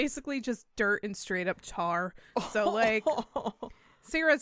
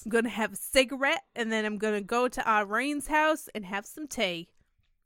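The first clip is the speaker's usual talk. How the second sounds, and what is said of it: Put-on Southern accent. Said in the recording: “You do turn Southern with your accent.”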